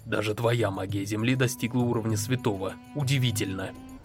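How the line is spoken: Quiet, slightly envious. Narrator (Russian): Рокси тихо произнесла с легкой завистью

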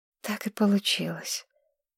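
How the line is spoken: Quiet sigh. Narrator (Russian): тихо вздохнула Маргарет

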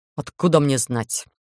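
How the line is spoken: Gruff snort. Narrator (Russian): грубовато фыркнул голландец

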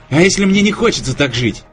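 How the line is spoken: Exclaiming. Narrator (Russian): воскликнул я

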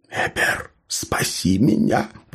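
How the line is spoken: Whisper. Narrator (Russian): прошептал Тенрон

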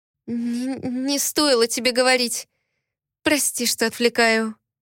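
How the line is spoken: Trembling voice. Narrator (Russian): дрогнувшим голосом сказала Лифен

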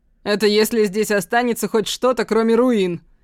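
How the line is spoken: Giggling. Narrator (Russian): хихикает Жан-Жак

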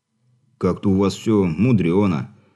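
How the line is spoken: Snorting. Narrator (Russian): хмыкнул парень

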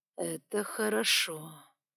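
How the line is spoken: Thoughtful drawl, fiery creature. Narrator (Russian): задумчиво протянул огненный

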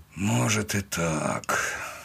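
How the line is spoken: Sighing. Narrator (Russian): вздохнул Афанасьев

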